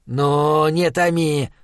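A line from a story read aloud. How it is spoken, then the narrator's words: Grumbled. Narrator (Russian): проворчал Схал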